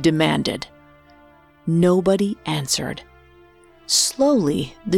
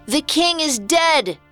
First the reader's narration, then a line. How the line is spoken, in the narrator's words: shouted the town crier